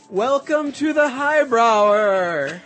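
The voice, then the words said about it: Poor impression of show announcer. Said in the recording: “impression of our announcer, Beefy Cakes ... That's awful.”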